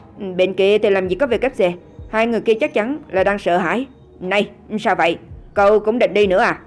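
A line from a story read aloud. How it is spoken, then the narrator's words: Somewhat angry. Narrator (Vietnamese): A Phi có chút tức giận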